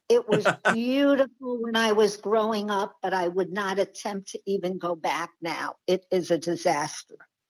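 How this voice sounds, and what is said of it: Bronx accent. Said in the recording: “with that accent, of course, we know you're from, is it Long Island? Is that a Long Island accent? ... No, it is a Bronx accent where I grew up.”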